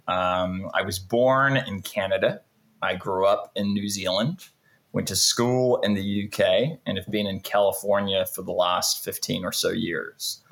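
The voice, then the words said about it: Hard-to-place mixed English accent. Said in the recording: “a very interesting accent ... there's no place you can pinpoint where this accent's from”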